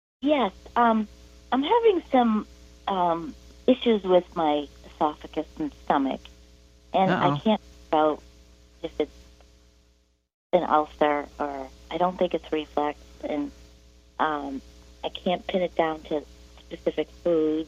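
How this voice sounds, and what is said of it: Boston accent. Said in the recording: “I can tell by your accent now that you've said a couple of words ... I'm located 20 miles north of Boston.”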